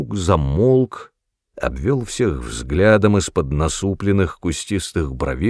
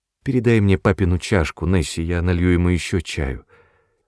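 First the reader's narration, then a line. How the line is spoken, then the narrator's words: Conciliatory female tone. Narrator (Russian): начала миссис Броуди примирительным тоном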